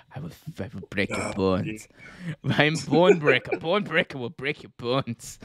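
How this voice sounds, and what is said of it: Arnie-like Austrian accent. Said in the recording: “Slip into more accents... I don't even know what accent that is. Is that Arnie, like Austrian?”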